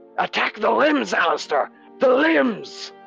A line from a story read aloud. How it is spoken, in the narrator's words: Daedalus shout out